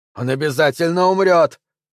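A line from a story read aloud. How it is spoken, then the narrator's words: Shout echoed by thin squeak. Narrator (Russian): прокричал Маттолч, а вторивший ему тоненький голос пропищал то же самое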